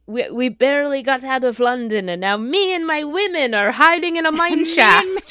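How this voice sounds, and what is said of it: Bad Irish accent imitating. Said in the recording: “incredibly bad Irish accent”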